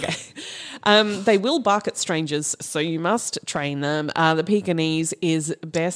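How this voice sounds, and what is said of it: Put-on posh accent. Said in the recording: “I don't know where this voice is coming from ... I can't do a Chinese accent very well, so I'm just going to go ... posh.”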